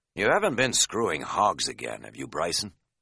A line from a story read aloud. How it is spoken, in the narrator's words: said in a more solemn tone